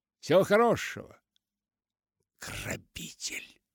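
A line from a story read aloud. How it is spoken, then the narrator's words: Hissing. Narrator (Russian): прошипел ему вслед мистер Энц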